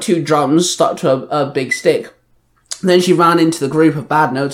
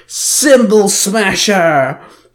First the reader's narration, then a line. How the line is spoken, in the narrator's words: she called out